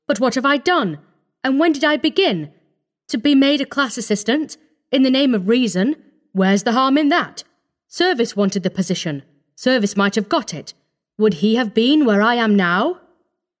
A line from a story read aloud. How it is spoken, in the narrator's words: he cried